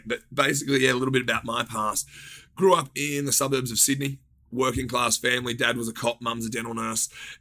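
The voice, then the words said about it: Australian accent. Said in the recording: “you grew up in Australia ... I can't hide this accent”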